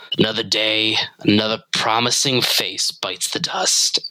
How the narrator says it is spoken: Fujita sighs and ... mumbles to herself

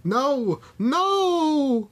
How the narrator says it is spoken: Nancy screamed

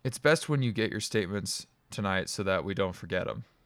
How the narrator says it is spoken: Tom said flatly

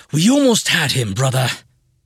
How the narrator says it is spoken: Vaid grumbled loudly

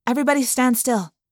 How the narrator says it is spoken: I said quickly

